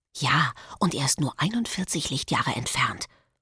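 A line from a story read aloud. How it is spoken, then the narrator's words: Whispered reply. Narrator (German): flüstert Marek zurück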